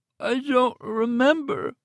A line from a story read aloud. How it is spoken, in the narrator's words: moaned